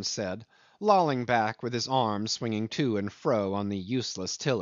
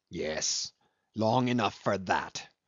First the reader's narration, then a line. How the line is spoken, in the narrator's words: snarled Cornelius